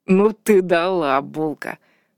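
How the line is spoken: Laughing. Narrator (Russian): хохотнул Вальдекрис

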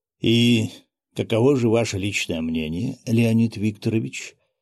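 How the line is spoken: Gentle inquiry. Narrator (Russian): мягко поинтересовался

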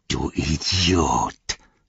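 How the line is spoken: Snarling. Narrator (German): fauchte Chagrat

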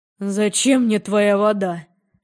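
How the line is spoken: Agonized moan. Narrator (Russian): простонал он мучительно

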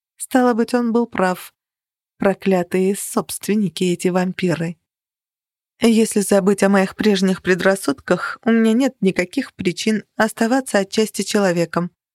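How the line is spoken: Even voice. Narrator (Russian): ровным голосом продолжала я

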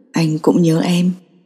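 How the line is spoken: Low voice in German. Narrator (Vietnamese): Tưởng Mết Xuyên khẽ nuốt nước bọt, anh thấp giọng đáp bằng tiếng Đức

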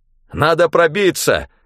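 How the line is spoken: Shouted out. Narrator (Russian): выкрикнул

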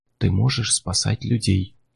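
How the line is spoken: Whisper. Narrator (Russian): шепнул голос

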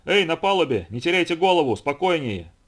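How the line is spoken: Shouted. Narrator (Russian): кричал команде

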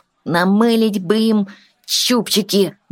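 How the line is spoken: Grumbling. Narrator (Russian): ворчал Тин

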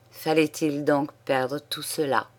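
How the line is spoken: Murmur. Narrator (French): murmura-t-il

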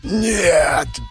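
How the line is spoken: Hoarse, helpless. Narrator (Russian): хрипел я от бессилия

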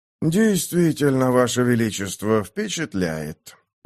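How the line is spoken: Tired. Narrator (Russian): устало сказал Лансер

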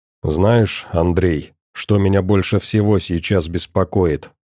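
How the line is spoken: Plain. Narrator (Russian): спросил Петрович

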